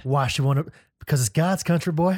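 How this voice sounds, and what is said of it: Put-on Southern accent. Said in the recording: “answer the question using your best Southern accent.”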